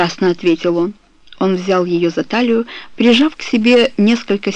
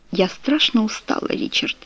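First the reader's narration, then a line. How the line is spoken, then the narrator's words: Barely audible. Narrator (Russian): едва слышно сказала она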